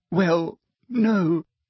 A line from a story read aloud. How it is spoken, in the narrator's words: sobbed Hermione